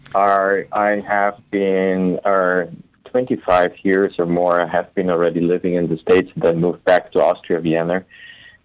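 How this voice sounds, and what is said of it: Austrian-accented English. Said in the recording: “the accent that you probably hear, with Arnold Schwarzenegger from ... Austria”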